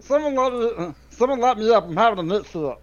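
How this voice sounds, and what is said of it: Meatwad voice impression. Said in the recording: “that was dead on meatwad ... the meatwad voice”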